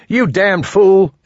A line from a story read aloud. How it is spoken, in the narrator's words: Elmo was yelling